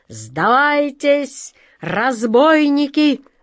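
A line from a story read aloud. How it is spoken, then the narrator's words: Thundering. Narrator (Russian): прогремел капитан Тинтиныч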